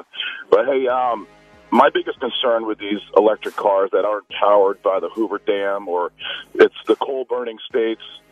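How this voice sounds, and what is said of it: Sick-sounding, rough voice. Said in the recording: “sorry about my voice. I'm getting over a cold”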